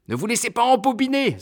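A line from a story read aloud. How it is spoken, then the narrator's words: Neighbor exclaiming. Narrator (French): s'écrie le voisin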